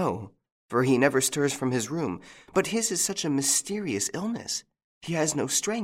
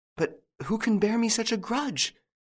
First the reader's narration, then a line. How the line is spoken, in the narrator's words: gasped